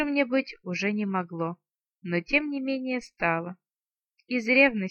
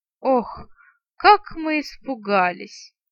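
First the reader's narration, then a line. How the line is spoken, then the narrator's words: Theatrical laugh. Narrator (Russian): картинно рассмеялся третий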